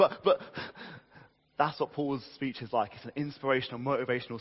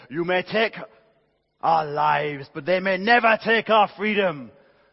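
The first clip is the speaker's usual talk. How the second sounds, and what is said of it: Poor put-on Scottish accent. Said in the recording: “That's my Scottish accent. It's pretty rubbish, I know.”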